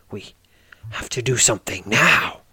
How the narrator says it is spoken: says, almost snarling the last word

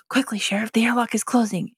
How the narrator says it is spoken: Buzz whispers

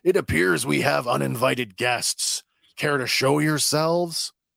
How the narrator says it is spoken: Mako, and he shouts

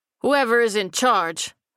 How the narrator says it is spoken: the leader bellowed, voice carrying across the parking lot

